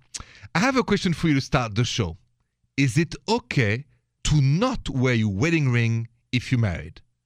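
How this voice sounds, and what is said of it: French accent. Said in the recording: “The accent is French, français.”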